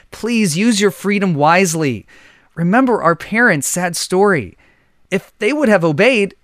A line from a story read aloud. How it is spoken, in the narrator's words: pleaded Abel once again